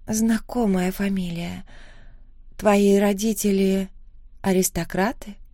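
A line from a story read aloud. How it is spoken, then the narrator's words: Uncertain question. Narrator (Russian): спросила она неуверенно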